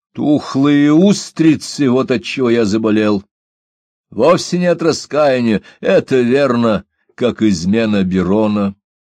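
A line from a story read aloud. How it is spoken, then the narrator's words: Impatient shout. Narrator (Russian): Он потерял терпение, крикнув с порога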